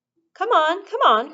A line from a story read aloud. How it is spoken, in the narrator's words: cried Mr